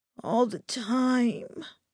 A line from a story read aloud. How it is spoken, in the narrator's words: I groaned